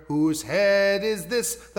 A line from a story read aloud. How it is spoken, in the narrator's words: the Glover said